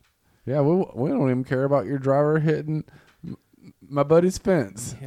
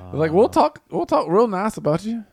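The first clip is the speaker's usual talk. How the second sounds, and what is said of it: Speaks in a put-on accent. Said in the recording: “with that accent”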